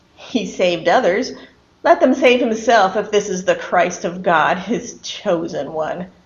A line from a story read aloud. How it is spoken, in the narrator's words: the rulers were sneering at him, saying